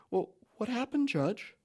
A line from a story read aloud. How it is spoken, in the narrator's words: Wendy makes her voice sweet, and she asks